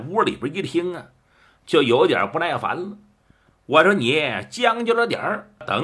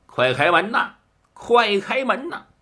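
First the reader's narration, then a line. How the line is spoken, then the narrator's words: Calling urgently at door. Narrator (Chinese): 就听着外边有人叫门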